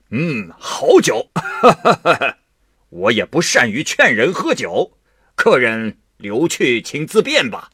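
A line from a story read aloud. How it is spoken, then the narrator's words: Laughing. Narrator (Chinese): 苗生 笑着说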